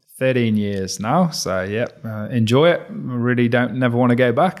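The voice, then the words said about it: English accent. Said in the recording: “that Pommy accent, whereabouts in the UK are you from?”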